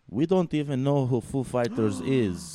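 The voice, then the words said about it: Made-up foreign accent. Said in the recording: “Did you just make up an accent for somebody? ... I made up an accent.”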